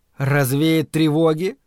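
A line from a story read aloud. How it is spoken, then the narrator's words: Inner voice snorting. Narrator (Russian): хмыкнул внутренний голос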